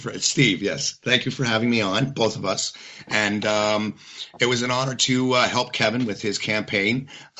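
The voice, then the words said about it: Congested, slightly hoarse voice. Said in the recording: “apologize for my voice. I'm getting a bit of a cold.”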